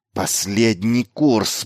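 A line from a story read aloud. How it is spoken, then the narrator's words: Hissed. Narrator (Russian): прошипел Майлз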